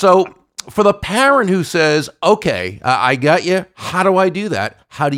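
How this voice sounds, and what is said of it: Usual voice. Nothing is said of it.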